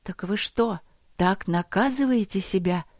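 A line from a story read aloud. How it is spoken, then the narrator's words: Incredulous breath. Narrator (Russian): неверяще выдохнула Алина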